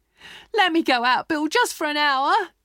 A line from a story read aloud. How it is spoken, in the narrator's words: screamed